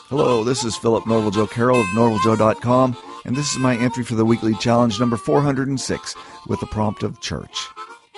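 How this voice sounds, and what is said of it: Voice of someone with a cold. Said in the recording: “I have a cold”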